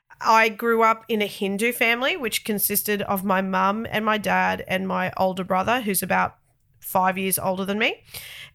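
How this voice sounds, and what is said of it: Thick Australian accent. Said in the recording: “the very thick Australian accent that you guys get to hear”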